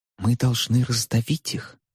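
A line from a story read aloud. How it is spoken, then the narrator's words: Whisper, mock seriousness. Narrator (Russian): прошептала Дейзи, с нарочитой серьезностью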